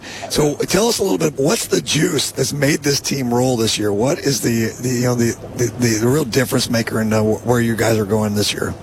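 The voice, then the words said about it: Hoarse, worn-out voice. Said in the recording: “I've lost my voice”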